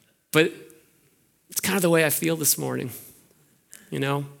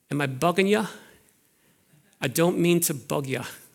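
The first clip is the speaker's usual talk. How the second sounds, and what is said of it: Weak put-on Dublin accent. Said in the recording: “in his Dublin accents, he says this ... I'm not very good at that accent.”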